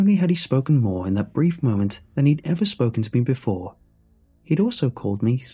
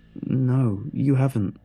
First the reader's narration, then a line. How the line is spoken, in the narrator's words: The shock of his words caused me to stutter out a reply